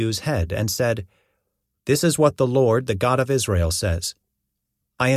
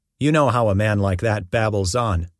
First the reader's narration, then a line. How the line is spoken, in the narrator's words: Jehu replied